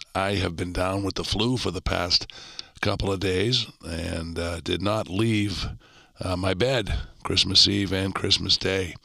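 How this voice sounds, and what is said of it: Croaky, hoarse sick voice. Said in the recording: “the condition of my voice ... I sound a bit like a frog”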